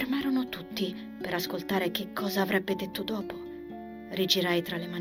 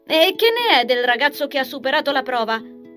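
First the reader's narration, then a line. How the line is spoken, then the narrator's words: Mother calling from afar. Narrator (Italian): gridò mia madre da dove si trovava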